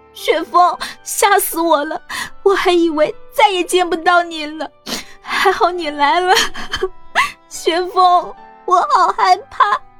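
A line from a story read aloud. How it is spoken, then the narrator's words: Crying aloud. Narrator (Chinese): 缓了一会儿的杨小兵哭出声来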